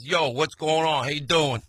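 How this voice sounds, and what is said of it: New York mob guy accent. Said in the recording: “She sounds like, you know, the New York mob guys.”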